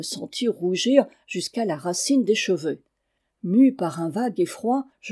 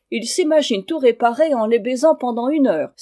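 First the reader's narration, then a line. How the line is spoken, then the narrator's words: Exclaimed. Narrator (French): s'écria Paul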